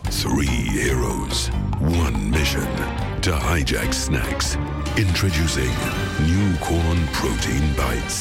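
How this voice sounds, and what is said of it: Serious dramatic announcer voice. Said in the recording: “doing the serious voice”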